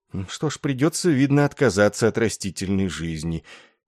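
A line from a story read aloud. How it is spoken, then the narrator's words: Sad, resigned. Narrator (Russian): печально смирился майор Денби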